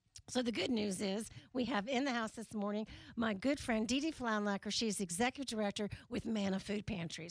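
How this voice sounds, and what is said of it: Voice sounds sick with a cold. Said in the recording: “if you can hear in my voice, I am on cold medicine this week”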